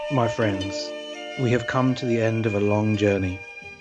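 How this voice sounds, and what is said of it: British accent, gravelly voice. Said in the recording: “Everything sounds better with a British accent. ... Even with the gravelly called.”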